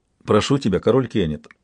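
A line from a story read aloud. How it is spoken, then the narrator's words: Plain. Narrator (Russian): сказала Малта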